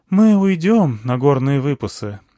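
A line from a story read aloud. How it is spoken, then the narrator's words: Sighing elder. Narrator (Russian): вздохнул старейшина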